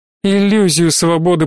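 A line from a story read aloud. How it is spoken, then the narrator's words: Grumbling girl. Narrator (Russian): проворчала девочка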